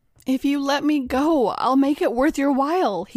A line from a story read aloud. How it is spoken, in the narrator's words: pleaded